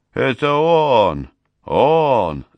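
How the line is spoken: Shouting in recognition. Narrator (Russian): заорал агент, увидев Мака

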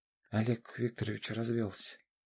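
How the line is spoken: Quiet. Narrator (Russian): тихо произнесла Аня

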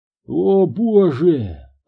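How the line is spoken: Moaning. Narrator (Russian): простонал Санчес

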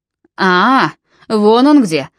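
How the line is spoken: Booming voice. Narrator (Russian): прогремел Нимрод

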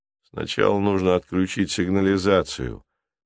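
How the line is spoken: Calm reminder, driver. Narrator (Russian): спокойно напомнил ему водитель

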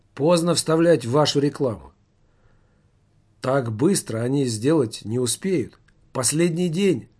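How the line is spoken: Tired voice. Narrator (Russian): устало проговорил директор фестиваля

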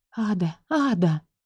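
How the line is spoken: Whisper. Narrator (Russian): Расслышала я со стороны свой шепот

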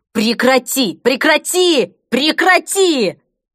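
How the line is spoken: Hysterical shrieking. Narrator (Russian): Она визжала, как полоумная

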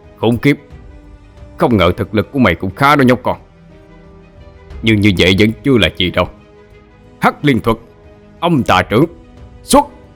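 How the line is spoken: Resentful shout. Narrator (Vietnamese): Tên áo tím lòng không cam tâm, liền quát lên

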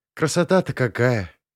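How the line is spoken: Enchanted sigh. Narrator (Russian): очарованно вздохнула Рита

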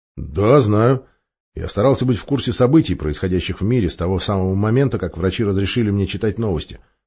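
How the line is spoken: Plain. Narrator (Russian): ответил главный инженер

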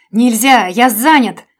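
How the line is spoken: Desperate shout. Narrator (Russian): закричал Женя, будто от этого зависела его жизнь

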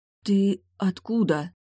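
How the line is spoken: Barely forced out. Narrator (Russian): Только и смогла выдавить из себя

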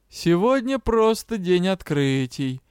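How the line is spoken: Snide interjection. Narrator (Russian): ехидно вставил Морф

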